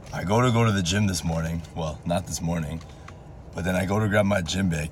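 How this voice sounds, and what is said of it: Strained voice from sore throat. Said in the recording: “Sorry for my voice. My throat's been killing me.”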